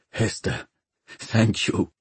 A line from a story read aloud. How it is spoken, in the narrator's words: whispered